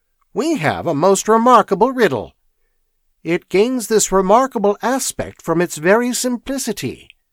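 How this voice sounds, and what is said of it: Crabbed, irritable character voice. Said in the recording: “in his perpetually crabbed voice”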